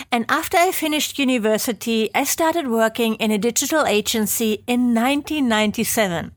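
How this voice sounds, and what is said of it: German accent. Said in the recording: “I'm from Germany, as you might be able to tell from my hopefully not too annoying accent.”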